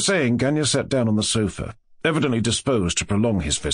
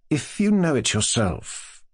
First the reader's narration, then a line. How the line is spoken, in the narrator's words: asked Mushkin rather timidly